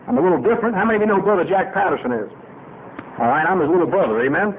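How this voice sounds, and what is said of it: New York City accent. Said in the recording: “I got a strange accent. Grew up in New York City.”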